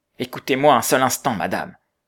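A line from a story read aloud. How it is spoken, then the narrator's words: Monk's urgent cry. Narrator (French): s'écria le moine, rappelé à lui par l'urgence du danger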